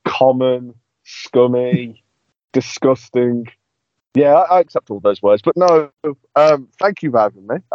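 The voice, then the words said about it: Birmingham accent. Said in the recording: “the Birmingham accent luscious”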